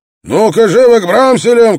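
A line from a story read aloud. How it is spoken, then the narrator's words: Shout. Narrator (Russian): крикнул он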